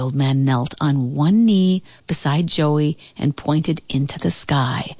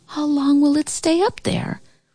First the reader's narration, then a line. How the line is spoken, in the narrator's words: The Sandman spoke softly